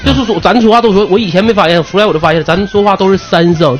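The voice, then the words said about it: Noticeable Anshan accent, third-tone heavy. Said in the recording (Chinese): “鞍山的口音还挺明显的 ... 鞍山口音明显，鞍山人说话全都说三声 ... 这三声真标准”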